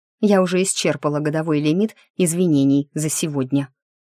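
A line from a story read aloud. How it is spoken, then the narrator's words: Offended grumble. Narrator (Russian): буркнула обиженно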